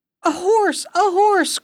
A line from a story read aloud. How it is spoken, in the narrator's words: cried the king